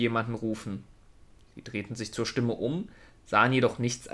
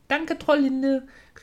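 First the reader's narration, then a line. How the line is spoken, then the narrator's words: Calling back. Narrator (German): rief Trüffli zurück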